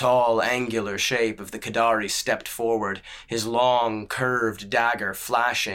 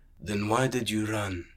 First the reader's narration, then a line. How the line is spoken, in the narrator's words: muttered the sellsword in his gentle lilt